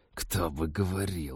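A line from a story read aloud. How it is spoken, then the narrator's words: Indignant hiss. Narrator (Russian): возмущенно прошипел Тед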